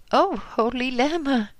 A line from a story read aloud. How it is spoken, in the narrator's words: exclaimed in terror